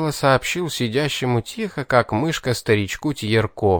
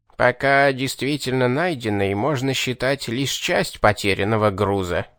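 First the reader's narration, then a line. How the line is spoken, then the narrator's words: Creaky reply. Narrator (Russian): проскрипел в ответ тот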